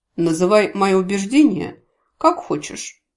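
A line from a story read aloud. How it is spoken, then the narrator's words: Cold reply. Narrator (Russian): холодно отозвался Гворий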